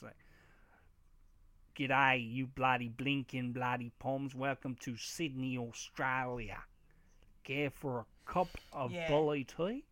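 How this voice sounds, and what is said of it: Exaggerated Americanized Australian accent. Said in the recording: “Americanized like Australian accents? ... When Americans try to do Australian accents, it doesn't always pan out well.”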